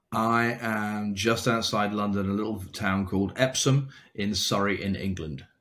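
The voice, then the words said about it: English accent. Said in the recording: “So we all hear an accent.”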